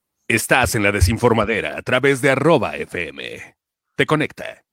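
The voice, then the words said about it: Radio announcer voice. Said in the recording (Spanish): “con voz de locutor de Chostomo, de esa voz que tienes ... ¿Qué voz tan bonita tiene? ... Tiene una voz encantadora.”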